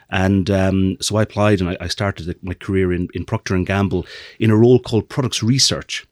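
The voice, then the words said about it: Irish accent. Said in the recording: “for those who don't get my accent, I'm from the middle of Ireland.”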